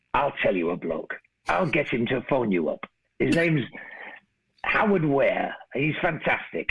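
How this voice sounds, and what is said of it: Put-on Manchester accent. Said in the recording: “I've got the wrong accent there because I'm doing Manchester and Rod's from Yorkshire. But, you know, it's the closest I can do”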